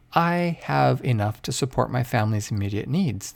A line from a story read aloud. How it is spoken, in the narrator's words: the Mexican said